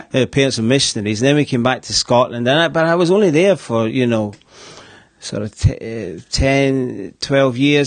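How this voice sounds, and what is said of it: Distinct regional accent. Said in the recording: “apart from my accent, which is a big clue to where I've located at one point in my life”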